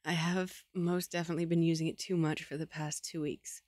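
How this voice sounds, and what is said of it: Strained, failing voice. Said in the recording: “I can feel myself losing my voice.”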